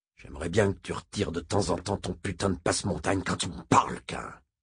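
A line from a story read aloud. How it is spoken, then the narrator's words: Growled. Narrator (French): gronda Moram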